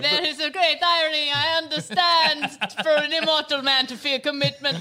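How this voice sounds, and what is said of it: Poorly done Dracula accent. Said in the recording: “I really cannot do that accent”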